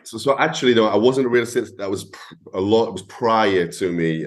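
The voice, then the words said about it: Northeast English accent. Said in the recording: “I love the accent ... a northeast accent ... it sounds a little different than the conventional ... it sounds like a hybrid accent”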